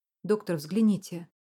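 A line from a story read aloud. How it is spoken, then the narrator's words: Sharp. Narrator (Russian): резко сказала сестра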